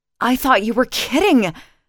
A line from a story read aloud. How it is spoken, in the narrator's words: she gasped